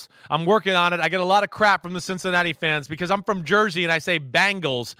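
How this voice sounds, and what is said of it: New Jersey accent. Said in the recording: “I got the Jersey accent”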